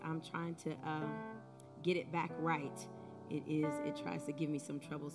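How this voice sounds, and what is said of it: Hoarse, strained voice. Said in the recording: “Please excuse my voice. ... I've been sounding like Grover the last couple of weeks”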